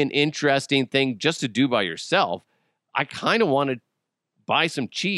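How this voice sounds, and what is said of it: Usual voice. Nothing is said of it.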